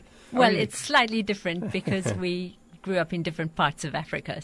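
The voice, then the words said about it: Southern African accent. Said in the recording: “you don't have that normal South Carolina twang in your voice ... Southern African accent”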